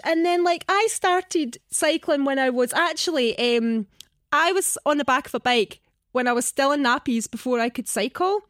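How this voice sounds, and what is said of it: Scottish accent. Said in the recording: “Obviously, I've got a Scottish accent,”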